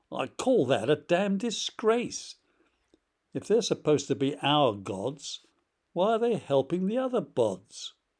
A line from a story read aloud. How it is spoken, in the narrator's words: Caesar, purple in the face, roared